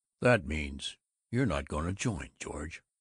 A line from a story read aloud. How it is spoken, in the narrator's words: McKelvey snarled